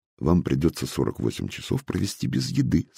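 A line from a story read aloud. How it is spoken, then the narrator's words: Plain. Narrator (Russian): сказала хозяйка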